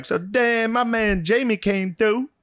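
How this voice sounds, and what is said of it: Badly exaggerated put-on Black accent. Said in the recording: “he code switched harder than anyone you've ever seen in your life ... he's not good at code switching ... a very offensive black accent as their code switch”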